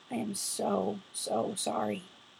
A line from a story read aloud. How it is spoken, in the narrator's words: broke off, voice choked